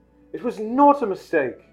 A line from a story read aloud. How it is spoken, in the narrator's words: said Harry angrily